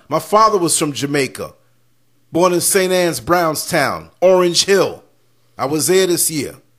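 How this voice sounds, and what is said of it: American accent. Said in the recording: “I got an American accent. I was born in New York”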